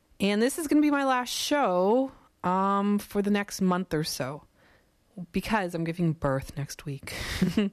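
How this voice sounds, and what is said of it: Raspy voice. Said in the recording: “raspy-voiced”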